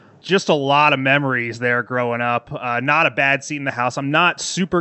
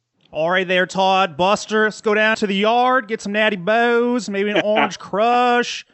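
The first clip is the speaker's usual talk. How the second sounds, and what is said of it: Put-on Baltimore accent. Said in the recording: “it's my finest Baltimore accent there.”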